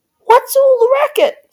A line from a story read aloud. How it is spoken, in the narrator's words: Cindy cried